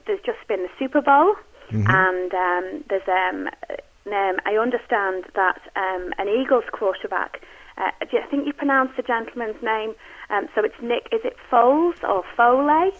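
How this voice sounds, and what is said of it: British accent. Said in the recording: “where's that accent? Where's that coming from? She is British”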